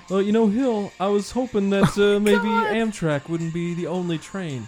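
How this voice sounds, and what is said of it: Imitates another person's voice. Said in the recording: “Great Bill Clinton impression.”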